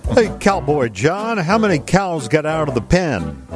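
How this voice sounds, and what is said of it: Put-on southern twang accent. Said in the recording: “You get a southern accent. ... They're twang.”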